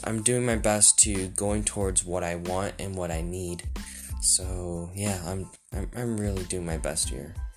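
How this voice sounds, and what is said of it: Tired-sounding voice. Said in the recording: “I sound a bit tired. I just finished a workout.”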